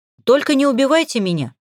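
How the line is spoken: Choppy strained words. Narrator (Russian): отрывисто выдавил

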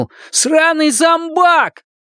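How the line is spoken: Shouted. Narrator (Russian): крикнул

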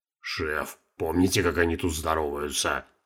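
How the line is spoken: Whisper in ear. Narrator (Russian): шепнул на ухо начальству Гена

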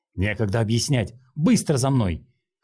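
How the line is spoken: Shout. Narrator (Russian): крикнул Линхуан

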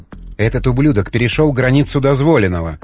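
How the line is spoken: Angry hiss, woman. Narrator (Russian): прошипела старшая жена

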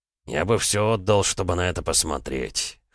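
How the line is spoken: Grunted. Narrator (Russian): хмыкнул Ермолов

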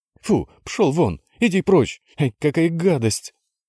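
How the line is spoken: Screaming. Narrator (Russian): вопила Яна

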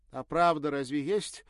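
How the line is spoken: Exclaiming. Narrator (Russian): воскликнула Ирина

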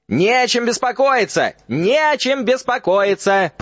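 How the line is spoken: Shouting. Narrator (Russian): прокричал Фадж

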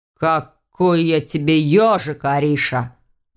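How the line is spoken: Growled. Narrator (Russian): рыкнул голос

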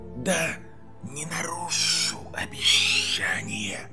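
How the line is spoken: Hissing. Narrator (Russian): прошипел Гарри

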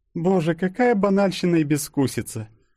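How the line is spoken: Disdainful sigh. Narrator (Russian): вздохнула Юля, увидев шубку

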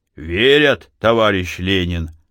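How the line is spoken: Booming drone. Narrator (Russian): опять прогудел Силантий Бакурин

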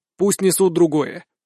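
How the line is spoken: Angry declaration. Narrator (Russian): заявляю сердито

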